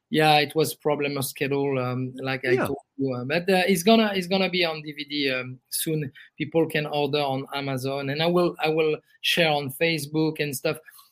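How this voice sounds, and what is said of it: Noticeable non-native accent. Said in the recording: “his accent is so cool”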